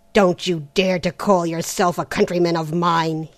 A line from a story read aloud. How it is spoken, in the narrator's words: he growled